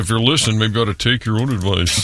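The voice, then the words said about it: Imitates another person's voice. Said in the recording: “that was your texter impression voice ... It was kind of a Tom Stasniak impression”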